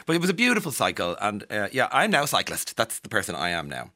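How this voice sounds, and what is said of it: Irish accent. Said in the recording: “hear your accent and discover that you're Irish ... upon hearing my accent”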